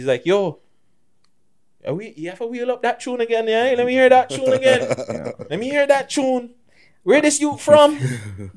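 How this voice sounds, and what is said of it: Fake accent imitating a friend. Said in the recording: “that's my fake ass bitch accent”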